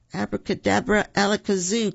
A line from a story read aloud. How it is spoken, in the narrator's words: cried Roo